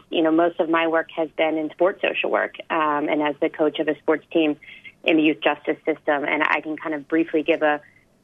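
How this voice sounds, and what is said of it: American accent. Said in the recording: “I'm from the States. You might be able to tell from my accent”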